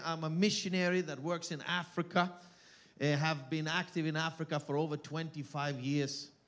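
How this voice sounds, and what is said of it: Thick foreign accent. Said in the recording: “my accent is very thick, you know, before noontime. It gets better”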